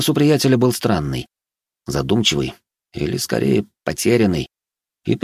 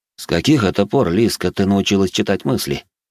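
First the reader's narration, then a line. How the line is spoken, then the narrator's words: Sighing. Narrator (Russian): Вздохнул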